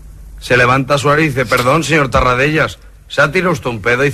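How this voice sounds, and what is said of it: Galician accent, not Catalan. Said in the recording (Catalan): “Fa accent gallec, 80. No català.”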